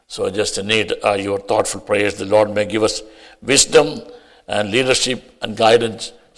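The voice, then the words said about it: Speaks with a noticeable accent. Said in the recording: “you may acquaint it with my accent. Sometimes people say, "I got an accent."”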